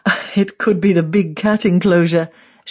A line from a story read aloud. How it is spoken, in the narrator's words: she chuckles